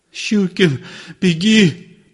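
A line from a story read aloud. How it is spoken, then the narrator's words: Sobbing mumble. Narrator (Russian): промычал он, всхлипывая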